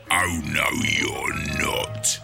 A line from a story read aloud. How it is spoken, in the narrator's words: hissed